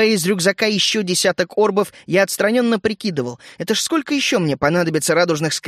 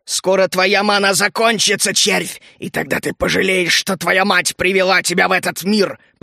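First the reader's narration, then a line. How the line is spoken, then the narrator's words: Growled. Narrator (Russian): прорычал он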